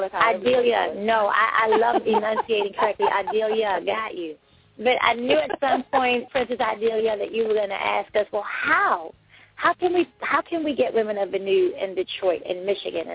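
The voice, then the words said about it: Northeast US accent, slightly New York. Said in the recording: “I have a northeast accent, so you have to bear with me. Sometimes it sounds a little southern. Sometimes it sounds a little New Yorkish. ... I have like identity issues with my dialect”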